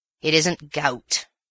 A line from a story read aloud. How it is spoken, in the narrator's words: said the Major gruffly